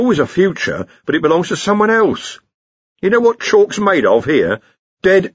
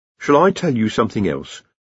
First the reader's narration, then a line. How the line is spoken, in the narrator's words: said Rincewind, a little more calmly